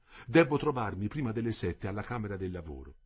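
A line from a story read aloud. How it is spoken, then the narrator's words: Plain. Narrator (Italian): disse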